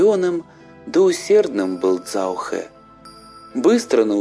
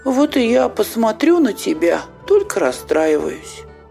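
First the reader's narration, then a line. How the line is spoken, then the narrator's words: Cheerful reply. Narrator (Russian): отвечает им Цзаохэ весело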